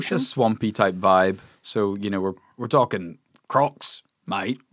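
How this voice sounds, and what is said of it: Put-on Australian accent. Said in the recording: “I know that you're just using this as an excuse to whip out your ... Australian accent.”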